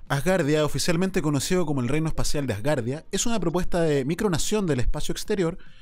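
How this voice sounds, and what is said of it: Announcer voice. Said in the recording (Spanish): “voz de locutor”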